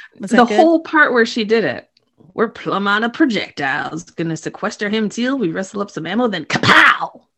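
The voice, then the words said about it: Imitates a character's voice. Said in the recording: “your Doc impersonation”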